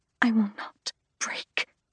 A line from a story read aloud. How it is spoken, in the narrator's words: I whisper